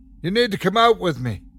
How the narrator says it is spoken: he shouted over the storm

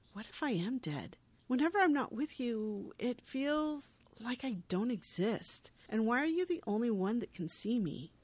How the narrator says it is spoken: She says sadly

